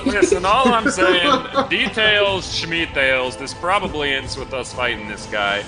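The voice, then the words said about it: Inconsistent put-on accent. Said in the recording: “Your accent is all over the place”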